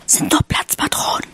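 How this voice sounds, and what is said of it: Whispering. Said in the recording (German): “flüsterte”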